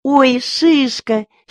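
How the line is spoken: Girl's happy cry. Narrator (Russian): счастливо вскрикнула девочка

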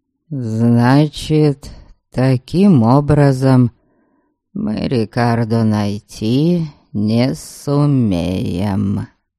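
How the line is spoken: Thoughtful drawl. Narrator (Russian): задумчиво протянул Олред

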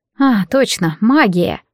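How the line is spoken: Sigh. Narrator (Russian): вздохнула я

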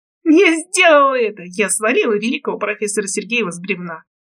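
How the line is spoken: Sinister laughter. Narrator (Russian): Захохотала я зловеще

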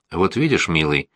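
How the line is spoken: Soft but firm voice. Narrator (Russian): ее голос звучал мягко, но решительно

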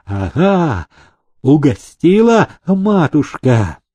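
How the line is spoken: Joyful shout, soldier. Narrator (Russian): радостно выкрикнул солдат

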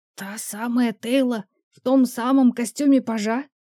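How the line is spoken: Hissing whisper. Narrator (Russian): свистящим шепотом спросил он

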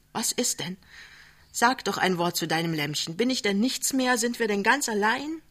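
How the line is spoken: Called out. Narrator (German): ruft

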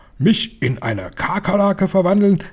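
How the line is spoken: Called out. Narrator (German): rief Mr

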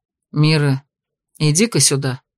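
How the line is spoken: Quiet call. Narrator (Russian): позвал он негромко

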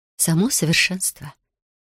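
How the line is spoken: Soft. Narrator (Russian): мягко проговорила она

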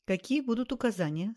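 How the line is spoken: Plain question. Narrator (Russian): спросил он

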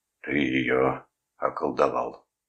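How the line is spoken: Gloomy. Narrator (Russian): мрачно сказал Калдервуд

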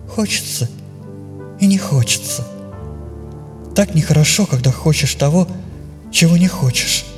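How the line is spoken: Muffled reply. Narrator (Russian): Эля опять уткнулась в плечо отца, и поэтому ответ ее прозвучал глухо

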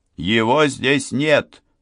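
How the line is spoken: Shouting. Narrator (Russian): крикнул

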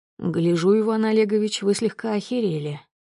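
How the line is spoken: With a snort. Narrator (Russian): хмыкнул Широков

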